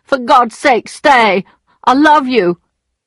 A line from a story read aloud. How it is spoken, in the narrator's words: dragged himself along on his knees towards her, shouting